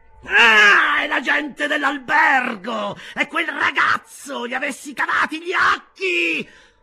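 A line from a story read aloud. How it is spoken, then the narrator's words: Blind man shouting. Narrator (Italian): gridò il cieco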